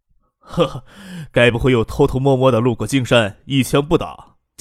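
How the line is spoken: Hearty laughing. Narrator (Chinese): 爽朗的笑着说

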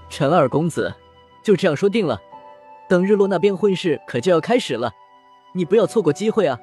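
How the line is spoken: Laughing. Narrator (Chinese): 笑了两声

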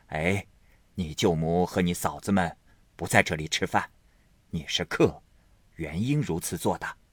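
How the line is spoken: Laughing. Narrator (Chinese): 贾母笑道

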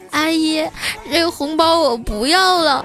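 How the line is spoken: Hesitant crying child. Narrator (Chinese): 这小家伙迟疑了五秒钟啊，哭着说

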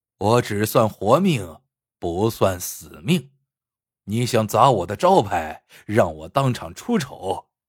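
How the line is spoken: Sly chuckling. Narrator (Chinese): 阴阳笔嘿嘿笑道

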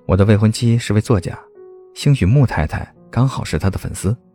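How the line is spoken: Low explaining voice. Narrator (Chinese): 低声与袁博士解释

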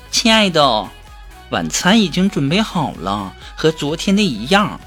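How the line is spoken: Gentle, tender wife. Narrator (Chinese): 妻子啊就温柔的就对他说

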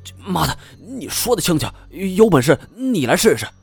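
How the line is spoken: Venting shout. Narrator (Chinese): 我是发泄般的大喊

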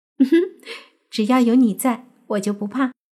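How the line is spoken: Chuckling. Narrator (Chinese): 洛言嘿嘿一笑，说道

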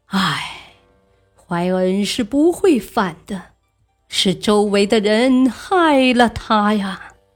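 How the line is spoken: Sorrowful sigh. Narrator (Chinese): 代宗只是怆然叹息

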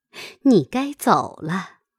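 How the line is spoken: Laughing. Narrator (Chinese): 凤姐笑道

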